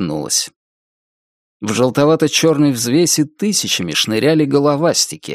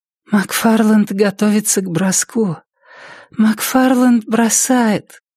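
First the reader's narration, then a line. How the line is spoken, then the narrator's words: Tired exhale. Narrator (Russian): Устало выдохнула Триша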